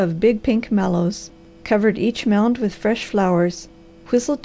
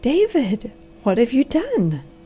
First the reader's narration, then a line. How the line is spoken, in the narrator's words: gasped the amazed girl